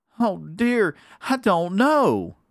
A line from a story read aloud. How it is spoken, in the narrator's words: cried Becky